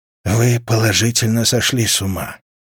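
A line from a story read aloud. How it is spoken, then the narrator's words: Sighing. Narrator (Russian): вздохнул консильер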